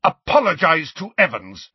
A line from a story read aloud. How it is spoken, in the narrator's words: James roared at Snape